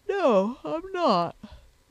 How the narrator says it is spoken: said Sponge, yawning again

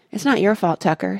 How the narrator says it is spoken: said Chester

